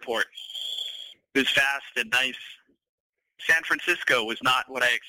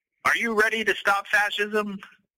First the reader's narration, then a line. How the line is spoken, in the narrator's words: one of them shouted